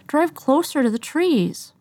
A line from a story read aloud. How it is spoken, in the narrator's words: he whined